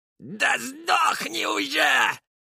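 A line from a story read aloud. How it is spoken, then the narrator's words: Yelled. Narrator (Russian): заорал Вольф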